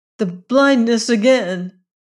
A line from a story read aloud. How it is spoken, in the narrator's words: cried Jane Witherstein